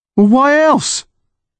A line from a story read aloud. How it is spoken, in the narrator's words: Connor said, his voice rising